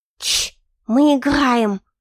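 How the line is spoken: Burring voice. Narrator (Russian): картаво произнесла она

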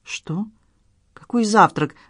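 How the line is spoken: Confused question. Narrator (Russian): растерянно переспросила Надежда

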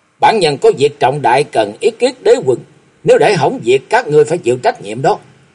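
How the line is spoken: Loud shout. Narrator (Vietnamese): Chàng quát lớn

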